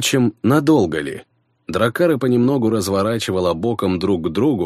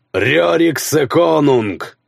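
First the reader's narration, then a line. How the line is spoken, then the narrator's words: Growling. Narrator (Russian): прорычал Хроки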